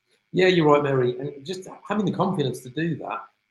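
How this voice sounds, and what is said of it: British accent. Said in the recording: “you can tell by my accent, I'm from the UK”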